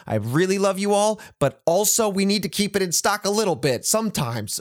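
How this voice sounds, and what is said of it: Raised, louder voice. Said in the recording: “I didn't mean to raise my voice”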